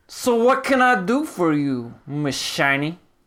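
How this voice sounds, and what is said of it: Inconsistent vague Russian character accent. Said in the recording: “Your accent is breaking really weird ... it's very bad ... He's becoming like weird Russian vague accent ... Krillian's accent is smug.”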